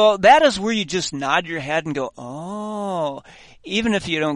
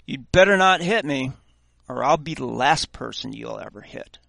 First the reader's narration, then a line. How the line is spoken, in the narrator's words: said quite calmly